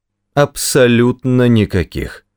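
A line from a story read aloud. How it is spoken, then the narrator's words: Clipped, emphatic. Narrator (Russian): отчеканил мистер Проссер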